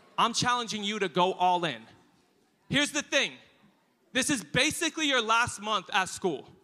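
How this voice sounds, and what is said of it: British accent. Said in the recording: “in a beautiful British accent”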